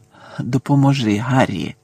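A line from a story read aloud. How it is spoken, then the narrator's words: Muttering. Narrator (Ukrainian): пробурмотів він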